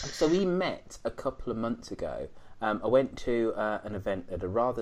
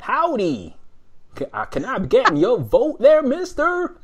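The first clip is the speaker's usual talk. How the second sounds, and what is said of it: Exaggerated comedy American Southern accent. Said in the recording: “I can't do the accent, but I'm gonna, you know, comedy American ... he sounds nothing like some yokel from the deep south”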